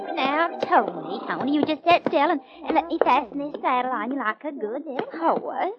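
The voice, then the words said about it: Fake Southern American accent. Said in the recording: “that southern accent of yours is as phony as your blonde hair”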